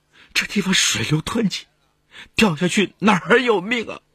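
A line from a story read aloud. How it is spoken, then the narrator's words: Tearful voice. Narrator (Chinese): 王学潘带着哭腔说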